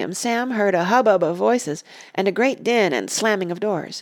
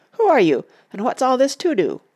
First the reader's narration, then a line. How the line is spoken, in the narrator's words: cried